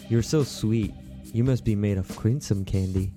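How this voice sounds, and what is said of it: Exaggerated sexy, seductive voice. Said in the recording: “get your sexy voices ready ... Sexy voice.”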